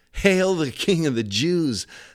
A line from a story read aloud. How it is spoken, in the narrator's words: they laughed